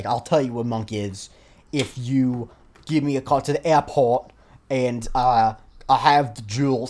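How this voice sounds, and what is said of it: Bad attempt at American accent. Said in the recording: “I'm trying to do a bad American accent. I can't. I can't even do a good British accent.”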